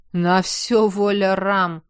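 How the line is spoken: Snort. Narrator (Russian): хмыкнул Зюня

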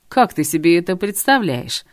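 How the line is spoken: Growling. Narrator (Russian): рычал Артурчик

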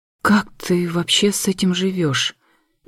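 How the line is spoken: Halting, overwhelmed whisper. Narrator (Russian): Не сдержавшись, сбивчиво прошептала я

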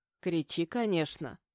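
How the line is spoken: Condescending chuckling purr. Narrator (Russian): снисходительно позволил он и, хмыкнув, проурчал

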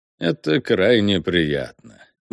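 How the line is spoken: Purring. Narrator (Russian): мурлыкнул Рока

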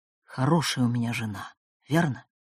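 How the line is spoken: Mysterious tone. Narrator (Russian): столь таинственным тоном

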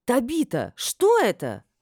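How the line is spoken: Indignant exclamation. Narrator (Russian): возмущенно воскликнула я

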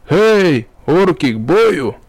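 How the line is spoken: Roaring shout. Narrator (Russian): взревел Макс, точнее уже сотник темного отряда Каршарк

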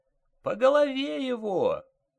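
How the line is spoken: Shrill old woman's shriek. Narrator (Russian): взвизгнула старушка

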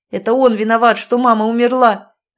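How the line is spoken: Shouting. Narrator (Russian): Роман кричал

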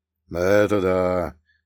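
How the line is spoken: Sad agreement. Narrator (Russian): грустно кивнул Прокоп

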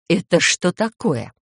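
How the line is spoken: Furious hiss. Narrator (Russian): прошипела с такой яростью, что голландец даже вроде как испугался поначалу

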